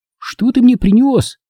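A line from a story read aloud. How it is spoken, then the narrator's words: Squeak, younger boy. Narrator (Russian): пискнул младший брат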